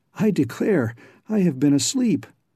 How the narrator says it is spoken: exclaimed Brainerd

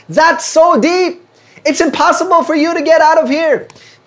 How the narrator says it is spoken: they shouted to the two frogs below

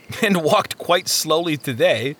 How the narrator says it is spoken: Christian chuckled

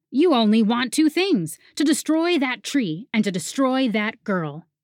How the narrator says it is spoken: Fritz practically shouted now

